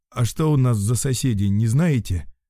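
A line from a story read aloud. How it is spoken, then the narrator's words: Upset sigh. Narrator (Russian): Мужик расстроенно вздохнул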